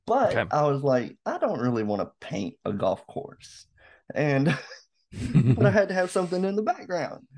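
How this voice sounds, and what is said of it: Rural Southern US accent. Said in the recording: “my accent probably, that I'm sounding like a little redneck kid”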